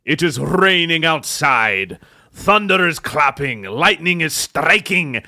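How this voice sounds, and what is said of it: Put-on Scottish accent. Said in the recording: “I have shifted to a Scottish accent”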